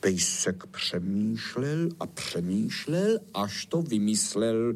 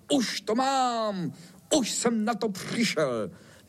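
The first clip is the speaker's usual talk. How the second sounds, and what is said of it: Excited shouting. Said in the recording (Czech): “Nekřič tak! Vždyť nám probudíš tu naši panenku.”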